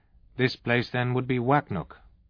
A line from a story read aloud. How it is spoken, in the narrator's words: he asked